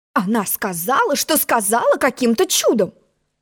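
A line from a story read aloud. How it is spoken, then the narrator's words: Indignant queen. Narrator (Russian): возмущенно черная королева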